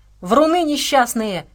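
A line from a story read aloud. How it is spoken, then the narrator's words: Shouted. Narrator (Russian): крикнула Саша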